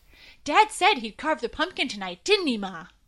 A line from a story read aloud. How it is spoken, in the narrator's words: eagerly asked